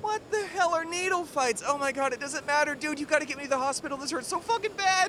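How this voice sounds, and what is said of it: Pained wailing like a dying animal. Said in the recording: “you sound like a dying elk”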